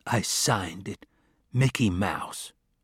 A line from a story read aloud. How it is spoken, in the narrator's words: he whispered to the others